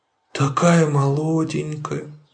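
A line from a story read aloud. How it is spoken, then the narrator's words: Sighing. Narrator (Russian): вздохнула мама Ларсон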